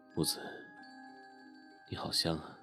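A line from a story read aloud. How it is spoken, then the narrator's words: Soft whisper in ear. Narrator (Chinese): 郑畅在木子耳边轻声说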